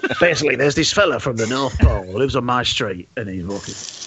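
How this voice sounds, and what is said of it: Bernard Manning impression. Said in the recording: “an impression of Bernard Manning doing Santa ... suddenly I can speak like Bernard Manning”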